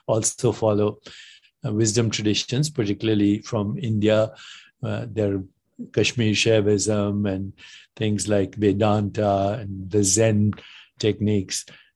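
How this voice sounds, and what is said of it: Indian accent. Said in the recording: “I have an Indian accent”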